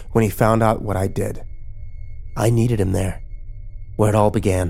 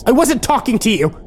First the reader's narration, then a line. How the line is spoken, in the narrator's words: Kimber yelled at me